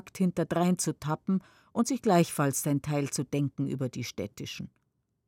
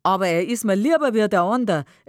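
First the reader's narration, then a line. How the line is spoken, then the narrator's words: Laughing reply. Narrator (German): erwidert lachend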